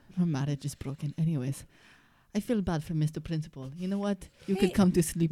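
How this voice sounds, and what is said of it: Austrian accent. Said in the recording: “I'm from Austria. ... that's a great accent you have.”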